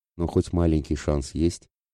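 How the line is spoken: Quiet question. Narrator (Russian): тихо спросил

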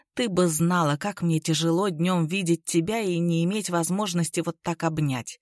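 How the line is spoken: Whisper. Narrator (Russian): прошептал

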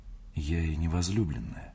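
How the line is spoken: Mumbling. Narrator (Russian): пробормотала она

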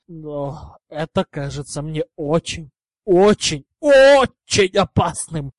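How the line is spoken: Strained, forced out. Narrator (Russian): наконец выдавил из себя Гарри

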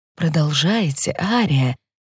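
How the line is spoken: Quiet. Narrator (Russian): тихо говорит Фарида

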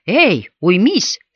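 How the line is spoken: Plain. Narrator (Russian): сказал Хойт

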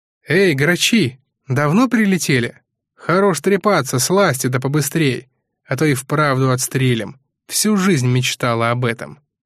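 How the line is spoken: Loud determined woman. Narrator (Russian): громко сказала блондинка

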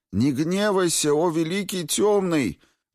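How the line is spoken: Shouted out. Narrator (Russian): выкрикнул он

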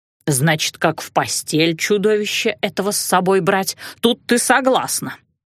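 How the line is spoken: Grumbling. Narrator (Russian): ворчала

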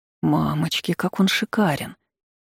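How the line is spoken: Convulsive admiring gasp. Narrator (Russian): Судорожно вздохнула она, не в силах отвести взгляд от его обнаженного торса

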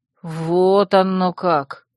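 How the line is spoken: Drawling. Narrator (Russian): протянул Динор

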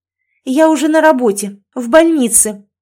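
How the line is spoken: Indignant, raised voice. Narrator (Russian): возмущенно повысила голос, не выдержав

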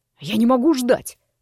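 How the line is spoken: Through gritted teeth. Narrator (Russian): процедил незнакомец

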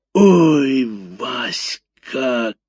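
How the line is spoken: Bellowing like a cow. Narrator (Russian): коровой взревела Валюха

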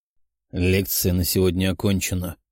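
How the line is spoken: Sullen, through teeth. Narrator (Russian): угрюмо процедил Велиафон

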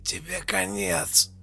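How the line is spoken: Choked, straining hoarse rasp. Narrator (Russian): Прохрипел придушенный помощник, пытаясь выбраться из захвата

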